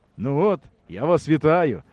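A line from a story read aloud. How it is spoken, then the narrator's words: Cheerful. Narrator (Ukrainian): весело сказав Максим Валер'янович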